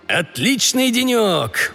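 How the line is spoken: Exclaimed. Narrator (Russian): воскликнул Бобби

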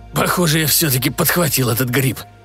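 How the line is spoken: Strained, between coughing fits. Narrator (Russian): выдавил Крестоманчи между приступами кашля

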